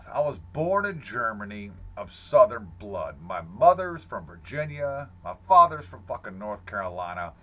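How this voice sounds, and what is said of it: Northern American (Yankee) accent. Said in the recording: “I had this Yankee-ass goddamn accent”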